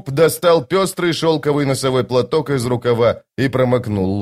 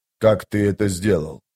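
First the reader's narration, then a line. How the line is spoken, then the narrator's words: Whispered. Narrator (Russian): прошептал быстрый Бен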